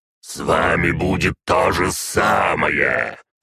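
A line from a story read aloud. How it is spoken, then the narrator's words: Growling. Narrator (Russian): прорычал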